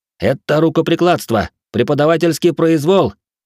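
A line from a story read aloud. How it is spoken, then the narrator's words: Shout while struggling. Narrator (Russian): крикнул я, пытаясь вывернуться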